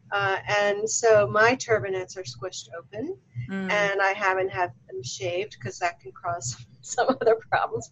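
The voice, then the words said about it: Baltimore accent. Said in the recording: “originally I'm from Baltimore. You guys can probably tell by my accent.”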